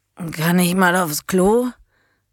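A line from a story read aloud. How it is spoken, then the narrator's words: Hoarse yet deep voice. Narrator (German): Die Stimme klang heiser und dennoch tief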